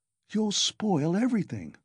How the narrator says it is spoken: Razumihin answered in the same whisper, losing patience

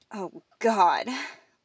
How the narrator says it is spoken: Lena gasped

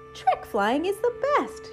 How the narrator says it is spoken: she exclaimed

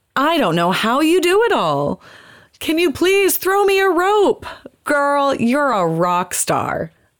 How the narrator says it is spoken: They shout back

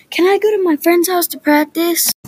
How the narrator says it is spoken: I yell

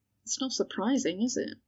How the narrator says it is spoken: Ginny murmured

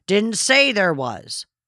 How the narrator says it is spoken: Malcolm suppressed a mischievous urge to shout back in the same tone

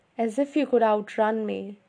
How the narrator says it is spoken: he laughed bitterly

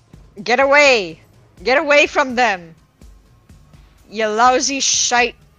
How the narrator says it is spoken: Mira just sort of shouts out

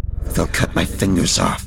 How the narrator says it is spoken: she hissed

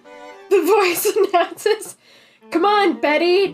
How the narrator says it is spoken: Charlie said excitedly

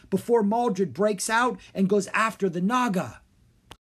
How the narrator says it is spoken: Rory cried

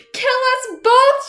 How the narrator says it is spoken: cried desperately

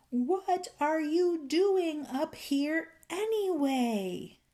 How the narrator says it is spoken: he bellowed with all his might

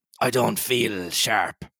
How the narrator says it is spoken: growled Morgan

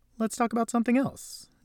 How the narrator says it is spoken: Jesse piped up

